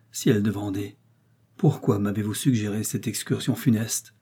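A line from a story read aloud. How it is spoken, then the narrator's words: Loud sigh. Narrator (French): soupira de nouveau et si fort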